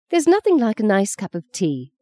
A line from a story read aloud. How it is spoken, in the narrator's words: sighed Fee